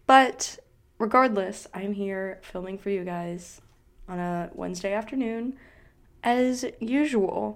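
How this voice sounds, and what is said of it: Rough, throaty allergy-affected voice. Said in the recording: “I don't know what my voice is doing. I've had like this weird thing in my throat, like type sounding thing... My voice is just like not having it... allergies”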